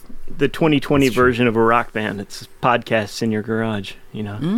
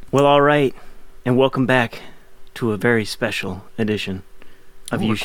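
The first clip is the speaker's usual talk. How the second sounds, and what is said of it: Quiet, soft public-radio announcer voice. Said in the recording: “I'm going with my NPR voice for today... We don't want to bother the neighbors”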